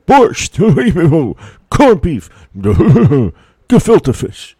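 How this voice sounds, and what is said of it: Fairly good Jackie Mason impression. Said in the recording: “iconic Borscht Belt comedian Jackie Mason ... That was a fairly good impersonation from you.”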